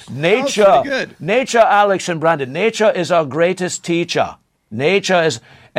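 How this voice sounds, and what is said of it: Put-on Dutch accent. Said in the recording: “I'll do my best Dutch accent.”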